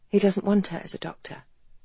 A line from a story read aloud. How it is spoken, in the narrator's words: Kathleen had said softly